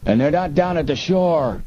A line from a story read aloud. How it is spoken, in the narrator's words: the other yelled